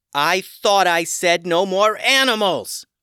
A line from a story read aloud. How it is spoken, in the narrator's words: Tatiana yelled